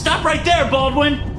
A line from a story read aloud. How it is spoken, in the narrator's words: Lohan shouts at me